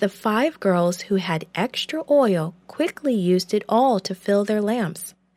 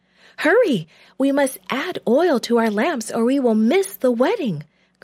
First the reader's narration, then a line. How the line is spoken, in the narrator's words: cried one